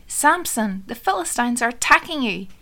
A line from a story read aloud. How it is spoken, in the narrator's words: She called out